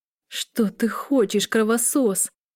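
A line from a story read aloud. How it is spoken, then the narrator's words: Hoarse she-wolf reply. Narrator (Russian): прохрипела волчица в ответ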